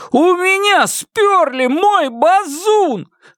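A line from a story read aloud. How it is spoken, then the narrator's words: Wailing yell. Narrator (Russian): завопил он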